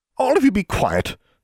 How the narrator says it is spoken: snapped the secretary

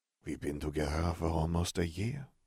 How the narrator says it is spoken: Fleur murmured

